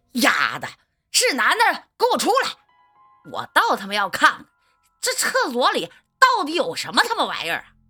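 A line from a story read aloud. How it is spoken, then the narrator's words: Exasperated roar. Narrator (Chinese): 阿信终于受不了了，大吼一声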